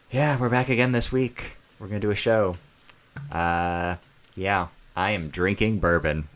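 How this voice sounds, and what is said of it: American accent. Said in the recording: “Opinion with an American accent.”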